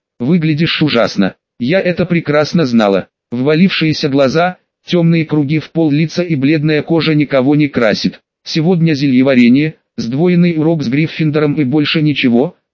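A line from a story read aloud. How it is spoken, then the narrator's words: Plain. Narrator (Russian): сказал Тиа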